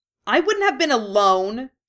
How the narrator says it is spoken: she snaps

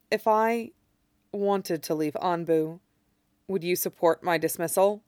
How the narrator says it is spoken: says softly

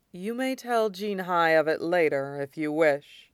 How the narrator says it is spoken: the elderly firebender said gravely

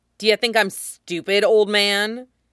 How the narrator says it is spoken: she barks

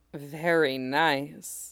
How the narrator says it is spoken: Kit said, letting his voice drop into an almost sub-vocal hum

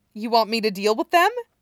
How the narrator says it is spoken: Stiles asks brightly

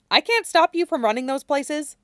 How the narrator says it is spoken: Stiles says

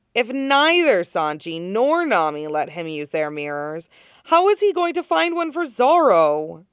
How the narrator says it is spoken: Nami sighs heavily, softening

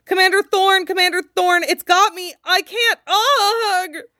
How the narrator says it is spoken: Clears his throat, then pitches his voice high in panic and calls

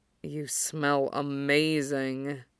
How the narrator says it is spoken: Kuro rumbles against him

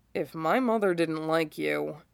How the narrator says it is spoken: Shikamaru mutters, but it's under his breath

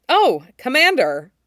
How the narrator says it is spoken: General Billaba says brightly

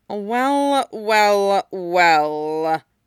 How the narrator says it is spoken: sneered Snape

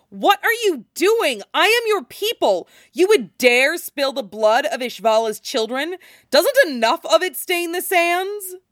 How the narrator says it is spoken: the teenage machine of war screams at him

